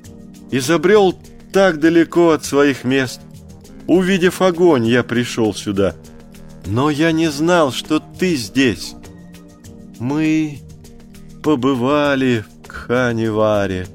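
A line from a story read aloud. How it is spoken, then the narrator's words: Timid. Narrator (Russian): робко сказала Месуа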